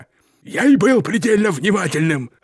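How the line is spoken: Barked. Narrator (Russian): рявкнул мистер Питерсон

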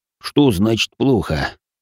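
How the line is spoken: Weary sigh. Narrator (Russian): вздохнул маг

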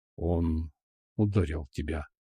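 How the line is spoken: Fierce breathless exhale. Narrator (Russian): Выдохнул неистово

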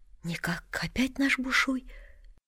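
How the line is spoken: Whispered. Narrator (Russian): Горкин говорит, тоже шепотком

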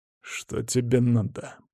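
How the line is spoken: Growl. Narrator (Russian): прорычал Карл наконец

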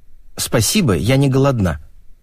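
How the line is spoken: Cold reply. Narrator (Russian): холодно ответила

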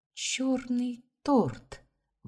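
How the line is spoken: Uncontrollable excited exclamation. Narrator (Russian): воскликнула, не в силах удержать себя

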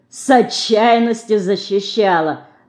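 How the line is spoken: Loud laughter. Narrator (Russian): захохотал другой

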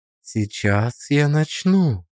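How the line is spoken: Quiet. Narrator (Russian): сказала она тихо

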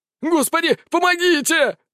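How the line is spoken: Shouted. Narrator (Russian): закричал

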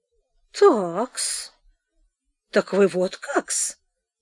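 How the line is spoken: Muttering. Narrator (Russian): бормотал Голяшкин

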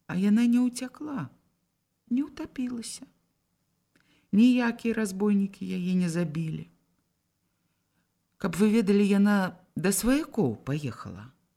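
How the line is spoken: Calm and dignified. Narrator (Belarusian): спакойна і паважна прамовіў

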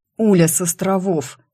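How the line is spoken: Hoarse. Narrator (Russian): хрипло проговорил Сэл

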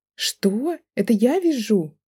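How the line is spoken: Indignant exclamation. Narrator (Russian): воскликнула она возмущенно

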